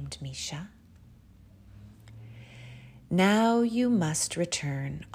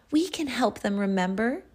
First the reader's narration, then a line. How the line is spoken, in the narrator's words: exclaimed Misha joyfully